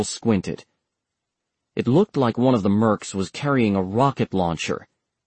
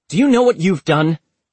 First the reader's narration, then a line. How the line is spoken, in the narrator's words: Agent Walker shouted